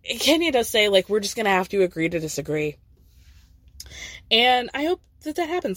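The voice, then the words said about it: Sick, rough-sounding voice. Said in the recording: “I feel like I sound terrible ... I'm sick, y'all”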